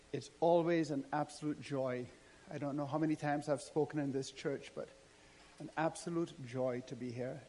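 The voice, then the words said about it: Speaks with a noticeable accent. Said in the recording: “I speak with a funny accent”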